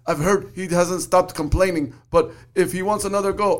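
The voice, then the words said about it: Attempted Russian accent. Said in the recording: “I tried to do a Russian accent ... you got to do the Russian accent with the Irish accent. No, you're fucking up, dude ... You're not doing him any justice.”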